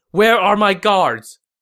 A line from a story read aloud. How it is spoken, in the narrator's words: Panicked, Cao Cao shouted